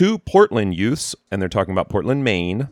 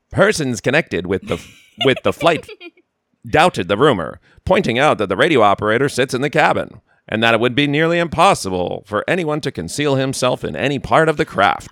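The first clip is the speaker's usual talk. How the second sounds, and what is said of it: Old-fashioned 1930s announcer voice. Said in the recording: “I should read this in my 30s announcer voice ... your amazing 30s voice”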